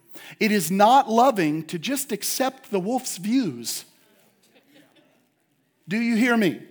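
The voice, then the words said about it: Stern fatherly scolding tone. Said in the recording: “I sound like I'm talking to my daughters ... Dad voice came over me”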